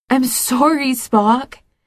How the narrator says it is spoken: Cybok cries

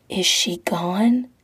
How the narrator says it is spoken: the guy whispers, breath tickling his ear

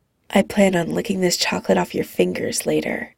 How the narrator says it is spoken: Phil murmurs into his ear

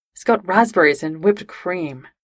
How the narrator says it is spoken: Jim sighed

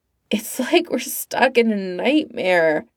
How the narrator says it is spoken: Villa moaned

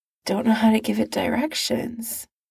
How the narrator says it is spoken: Steve murmurs

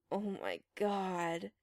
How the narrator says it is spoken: Chris groaned

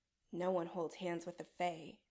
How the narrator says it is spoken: Adam mumbles

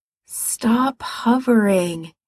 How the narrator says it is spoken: he said wearily

